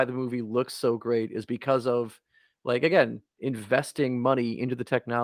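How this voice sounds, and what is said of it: Usual voice. Nothing is said of it.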